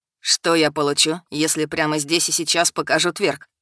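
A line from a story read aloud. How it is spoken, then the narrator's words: Laughing. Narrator (Russian): засмеялась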